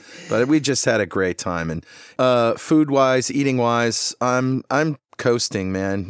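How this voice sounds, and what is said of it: Slightly hoarse voice. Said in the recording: “my voice is a little hoarse ... Sang my brains out and I'm a little hoarse”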